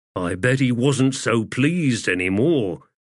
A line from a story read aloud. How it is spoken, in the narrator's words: Stormy said with a grunt